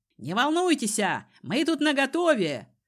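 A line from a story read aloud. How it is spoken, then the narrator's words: Falsely bold, frightened shout. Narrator (Russian): С фальшивой удалью крикнул молодец со светлыми усами, явно сам напуганный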